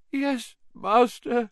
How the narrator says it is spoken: moaned Wormtail

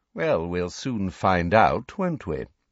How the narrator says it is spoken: said Snape smoothly

